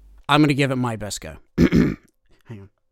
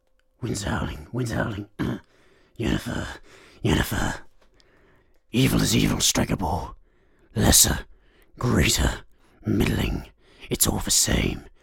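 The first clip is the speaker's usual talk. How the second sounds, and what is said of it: Attempted gruff fantasy hero voice. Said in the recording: “the very gruff, you know, badass fantasy voice ... my Geralt impression is impeccable ... So that was a lie ... Oh, a massive lie”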